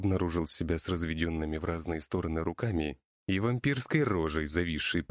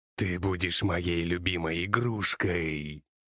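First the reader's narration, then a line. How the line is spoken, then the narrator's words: Hiss. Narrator (Russian): прошипел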